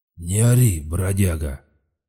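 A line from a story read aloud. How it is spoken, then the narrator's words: Hoarse rumble. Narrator (Russian): хрипло пророкотал хозяин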